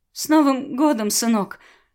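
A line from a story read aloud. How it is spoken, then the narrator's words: Tearful. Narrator (Russian): сквозь слезы произнесла Беата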